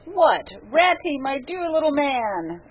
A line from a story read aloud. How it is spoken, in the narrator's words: exclaimed the Badger in quite a different voice